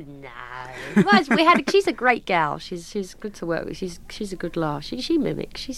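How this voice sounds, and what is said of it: Usual voice. Nothing is said of it.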